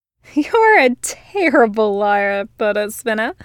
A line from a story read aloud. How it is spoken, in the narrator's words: she laughed